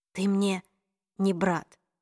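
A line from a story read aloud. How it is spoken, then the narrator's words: Breathless drained mumble. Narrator (Russian): пробормотала Клэри, слегка задыхаясь, как будто сознание сказанного лишило ее сил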